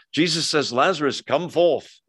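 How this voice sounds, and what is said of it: Put-on British accent. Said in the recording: “You have to do the British accent when you do Jesus.”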